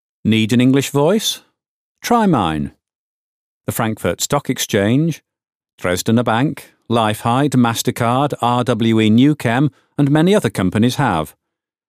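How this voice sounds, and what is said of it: Slight northern English accent. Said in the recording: “I'm from the north of England, and my natural speaking voice has just a hint of a northern accent.”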